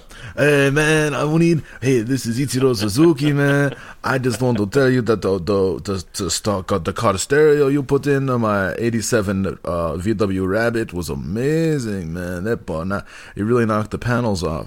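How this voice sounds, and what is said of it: Russian accent with Hispanic twist. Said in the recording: “I can't believe I put a Hispanic twist on a Russian accent. I'm so bad.”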